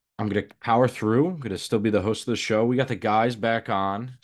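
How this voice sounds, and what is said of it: Congested, slightly unclear sick voice. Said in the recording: “I am a little under the weather, so my voice might not be as crystal clear or radio-like ... I have a little bit of a sinus infection”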